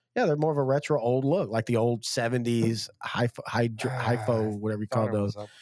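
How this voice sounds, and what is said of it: Sick, bronchitis-affected voice. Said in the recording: “if you can't tell by my voice, I've been sick. I'm on antibiotics. I have bronchitis.”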